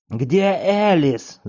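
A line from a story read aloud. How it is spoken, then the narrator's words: Director yelling. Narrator (Russian): завопил директор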